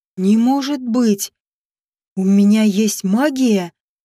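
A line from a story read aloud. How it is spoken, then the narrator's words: Frightened neighing. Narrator (Russian): Глаштин испуганно заржал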